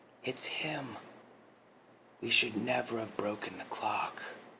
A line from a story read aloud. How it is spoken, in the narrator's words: A look of realization came upon April's face as she whispered over to June